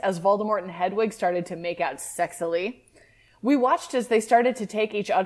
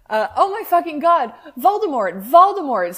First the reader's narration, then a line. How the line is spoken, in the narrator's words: screamed Hedwig